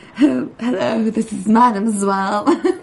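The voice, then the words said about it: Snobby put-on French accent. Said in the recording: “She was doing a French accent... that snobby French accent.”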